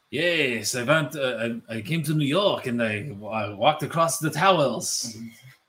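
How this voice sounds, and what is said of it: Exaggerated cartoonish French accent. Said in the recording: “instead of a French accent, be Pepe Le Pew ... You don't do a bad Frenchman's accent. ... it's a terrible French accent.”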